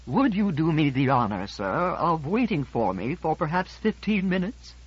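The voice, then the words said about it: Formal, stately courteous voice. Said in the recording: “in a more formal voice, with the stately courtesy”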